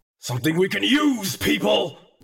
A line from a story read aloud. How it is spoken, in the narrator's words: Gru growled